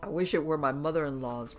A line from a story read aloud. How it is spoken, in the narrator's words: Brown laughed